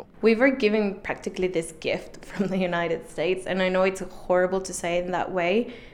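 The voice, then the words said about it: British-influenced English accent. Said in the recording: “As you can tell from her accent, she didn't learn English in the U.S., but the U.K.”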